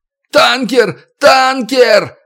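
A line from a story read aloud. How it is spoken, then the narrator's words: Yelling repeatedly. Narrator (Russian): орал, как заведенный Малик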